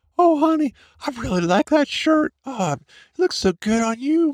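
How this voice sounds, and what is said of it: Awful high falsetto voice. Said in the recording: “is that not an awful falsetto voice?”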